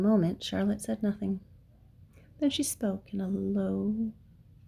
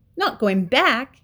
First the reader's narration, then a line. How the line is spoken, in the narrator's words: he cried